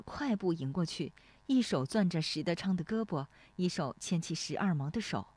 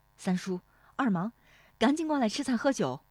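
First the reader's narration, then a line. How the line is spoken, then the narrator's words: Calling out. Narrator (Chinese): 史丽华喊了一声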